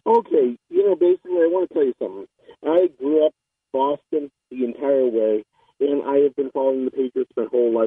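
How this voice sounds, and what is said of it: Muffled, hard-to-hear voice. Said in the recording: “I can hardly hear you. You sound muffled. Are you talking through a scarf?”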